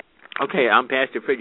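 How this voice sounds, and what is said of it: Raspy, strained voice. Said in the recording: “my voice is getting raspy.”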